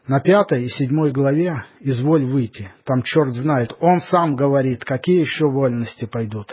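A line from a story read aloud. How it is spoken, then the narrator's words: Plain. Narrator (Russian): сказал он ей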